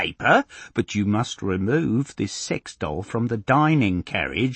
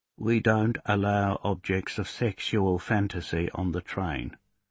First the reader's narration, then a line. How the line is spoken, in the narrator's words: Derek says in a low voice